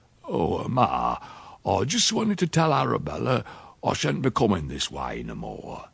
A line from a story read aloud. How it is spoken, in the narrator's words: My Uncle Silas he said quickly